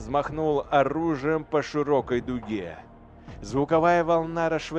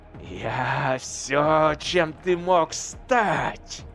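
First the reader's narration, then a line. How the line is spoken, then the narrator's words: Spirit hissing. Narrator (Russian): зашипел дух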